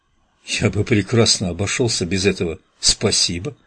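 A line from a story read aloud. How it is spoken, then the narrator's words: Mutter. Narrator (Russian): пробормотал он Дьюку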